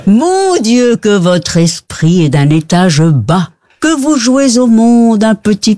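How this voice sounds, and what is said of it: Belgian French accent. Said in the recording (French): “Mais avec l'accent belge, on va dire.”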